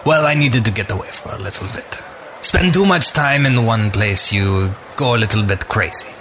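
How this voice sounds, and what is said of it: Put-on character accent. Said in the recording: “I like your accent.”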